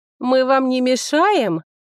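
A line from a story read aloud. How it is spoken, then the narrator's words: Lewd laughter. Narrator (Russian): похабно смеялись лорды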